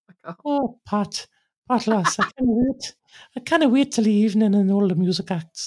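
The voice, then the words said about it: Geordie accent impression of Joy. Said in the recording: “do your Geordie Joy ... you sound like Bob Mortimer ... That's my Geordie Joy, my one and only ever Joy impersonation”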